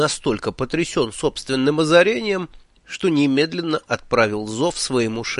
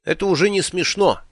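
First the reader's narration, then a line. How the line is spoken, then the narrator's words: Indignant. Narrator (Russian): возмущенно начал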